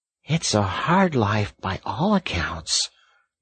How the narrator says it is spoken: murmured the Rat, sunk in deep thought

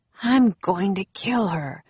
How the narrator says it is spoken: Jack muttered

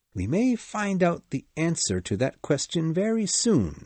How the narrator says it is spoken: said Holmes

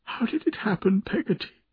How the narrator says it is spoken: asked, sobbing

